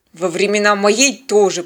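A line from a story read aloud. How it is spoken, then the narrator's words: Grumbled. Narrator (Russian): проворчал Теодор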